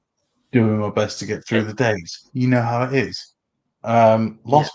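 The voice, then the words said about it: Slightly raspy voice. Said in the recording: “I have been ill. I'm still a little raspy.”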